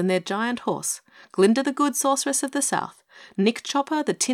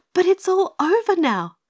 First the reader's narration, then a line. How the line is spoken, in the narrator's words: cried Dorothy